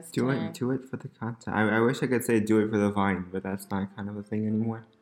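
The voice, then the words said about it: Strained, hoarse tired voice. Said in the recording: “my voice is destroyed ... We're exhausted and our voices are wrecked”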